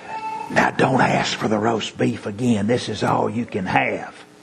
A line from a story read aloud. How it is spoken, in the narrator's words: she whispers